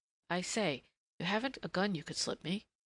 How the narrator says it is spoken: that agitated whisper

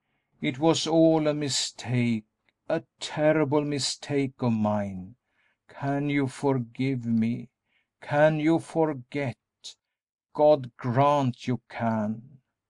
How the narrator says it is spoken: he answered brokenly

